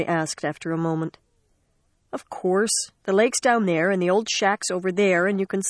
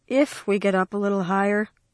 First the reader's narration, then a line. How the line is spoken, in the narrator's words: Mary said in a tired voice